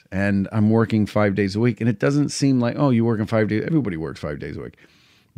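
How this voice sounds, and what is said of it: Strained, tired voice. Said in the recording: “hear it in my voice. My voice is getting, I'm really straining my voice”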